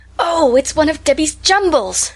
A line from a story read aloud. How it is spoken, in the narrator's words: she exclaimed